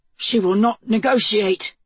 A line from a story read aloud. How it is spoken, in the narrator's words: gasped